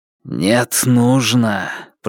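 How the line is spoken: Hiss. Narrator (Russian): прошипел звон на языке Раксура

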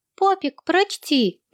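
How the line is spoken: Sweet chirping voice. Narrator (Russian): попросил Томми милым щебечущим голоском

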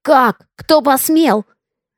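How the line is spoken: Roaring. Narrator (Russian): взревел он

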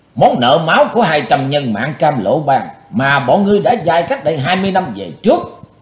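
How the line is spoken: Hissed through clenched teeth. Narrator (Vietnamese): Chí Tôn rít qua hai hàm răng cắn chặt

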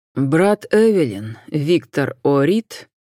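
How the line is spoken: Slow reply. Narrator (Russian): медленно отозвался Джон

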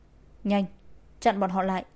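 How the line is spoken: Loud shout. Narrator (Vietnamese): Hắn ... quát lớn

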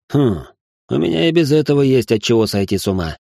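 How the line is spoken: Grumbling. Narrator (Russian): проворчал

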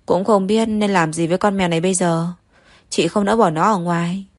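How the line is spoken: Sighing. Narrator (Vietnamese): Đới Manh Manh thở dài

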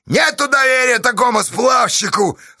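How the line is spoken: Yelling. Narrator (Russian): орал Поздей

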